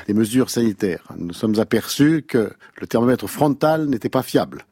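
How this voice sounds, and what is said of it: Impression of Jean Castex's accent. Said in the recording (French): “pour imiter Jean Castex ... C'est des comiques à accent, c'est facile.”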